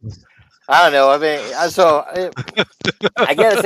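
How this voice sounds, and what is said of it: Usual voice. Nothing is said of it.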